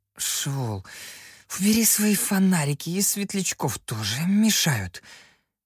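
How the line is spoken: Muffled grumble into elbow. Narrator (Russian): буркнул я, уткнувшись в сгиб локтя

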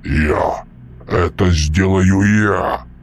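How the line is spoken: Deep booming drone. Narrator (Russian): прогудел Мальп

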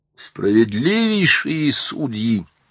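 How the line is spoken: Exclamation. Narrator (Russian): воскликнул он

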